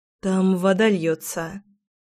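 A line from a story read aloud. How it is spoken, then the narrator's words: Forced out. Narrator (Russian): выдавила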